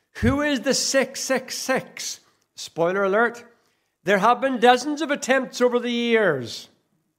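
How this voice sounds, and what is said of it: Northern Irish accent. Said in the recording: “In Northern Ireland, where my accent comes from”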